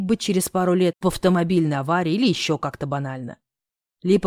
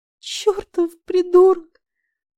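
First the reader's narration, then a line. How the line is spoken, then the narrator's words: Sobbing. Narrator (Russian): зарыдала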